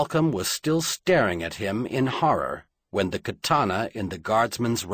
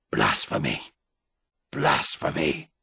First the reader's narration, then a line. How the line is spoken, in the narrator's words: Halcombe found the breath to gasp the word through the vice of despair tightening about his throat